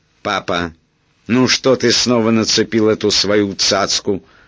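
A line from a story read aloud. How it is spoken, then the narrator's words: Menacing shout. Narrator (Russian): грозно крикнула она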